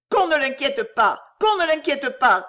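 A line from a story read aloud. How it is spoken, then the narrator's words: Shouting. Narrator (French): cria-t-elle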